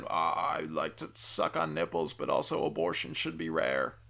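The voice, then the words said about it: Bad Bill Clinton impression. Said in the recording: “It's a horrible Clinton impression.”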